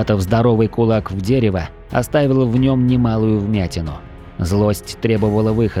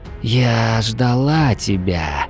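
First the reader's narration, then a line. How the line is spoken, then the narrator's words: Quiet whisper. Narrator (Russian): Тихий шепот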